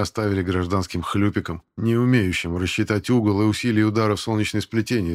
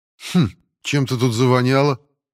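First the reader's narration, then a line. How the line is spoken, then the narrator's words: Scoffing grunt. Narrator (Russian): хмыкнул Павел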